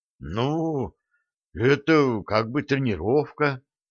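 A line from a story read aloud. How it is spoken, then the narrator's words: Disheartened mumble. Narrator (Russian): обескураженно промямлил Леха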